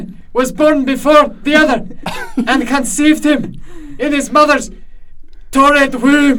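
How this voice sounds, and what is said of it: Put-on Scottish accent. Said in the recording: “I noticed you guys have accents ... I'm from the northern part of Scotland.”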